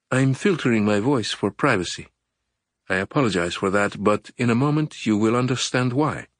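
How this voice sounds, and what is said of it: Distorted female voice, slight Spanish accent. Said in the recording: “The voice was female, but was masked somehow, sounding distorted. The caller spoke in rushed English with a slight Spanish accent.”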